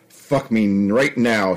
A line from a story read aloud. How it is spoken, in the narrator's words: she growled